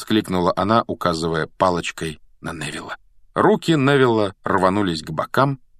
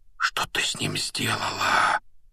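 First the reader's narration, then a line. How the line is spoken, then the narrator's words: Whisper. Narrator (Russian): прошептал Гарри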